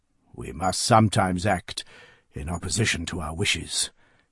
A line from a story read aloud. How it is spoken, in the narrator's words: he tells her in a low voice